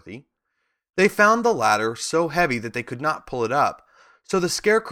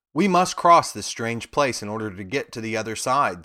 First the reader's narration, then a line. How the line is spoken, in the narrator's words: said Dorothy